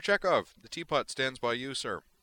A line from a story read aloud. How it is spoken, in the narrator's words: he added brightly